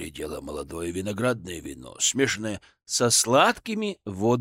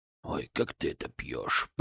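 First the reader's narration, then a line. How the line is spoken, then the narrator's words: Grumbling. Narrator (Russian): проворчал Библус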